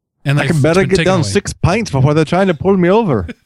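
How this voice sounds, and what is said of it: Deliberately bad put-on accent. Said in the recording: “My accent's horrible.”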